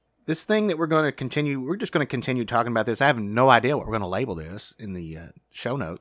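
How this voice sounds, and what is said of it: Southern American accent. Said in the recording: “We are Southerners, although I know you can tell that by our accent”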